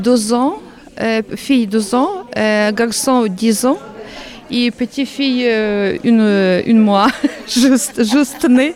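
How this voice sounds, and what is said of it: Slight Ukrainian accent in French. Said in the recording (French): “Je ressens un petit accent.”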